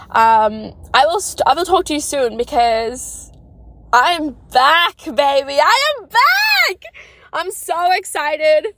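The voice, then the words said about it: Excited screaming. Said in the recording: “Yes, I'm screaming in my car.”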